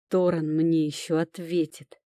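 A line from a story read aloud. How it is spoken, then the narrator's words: Growled. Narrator (Russian): прорычал Тирон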